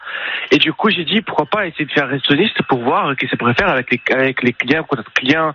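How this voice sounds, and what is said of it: Brazilian accent in French. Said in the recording (French): “on l'entend que... votre accent, vous êtes brésilien”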